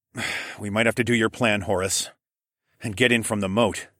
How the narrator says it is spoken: I sighed

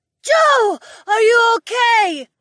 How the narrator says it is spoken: I heard Jessamine scream from what seemed like far away

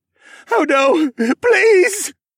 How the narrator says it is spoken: cried

